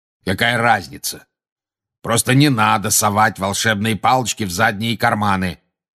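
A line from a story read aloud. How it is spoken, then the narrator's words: Growled. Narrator (Russian): прорычал грозный глаз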